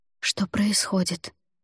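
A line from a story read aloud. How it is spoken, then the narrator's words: Barely audible repetition. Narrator (Russian): едва слышно повторила я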